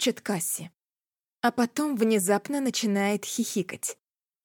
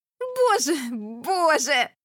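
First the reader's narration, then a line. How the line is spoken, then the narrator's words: Shrieked. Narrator (Russian): взвизгивает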